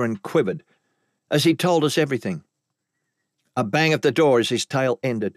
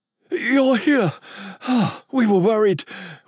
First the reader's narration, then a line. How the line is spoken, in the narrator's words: William said between heaved panting